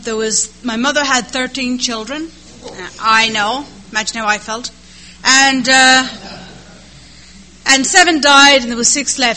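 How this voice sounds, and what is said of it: Irish accent. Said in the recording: “the accent is Irish”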